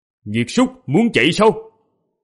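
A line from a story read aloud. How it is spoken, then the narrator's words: Sharp shout. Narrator (Vietnamese): quát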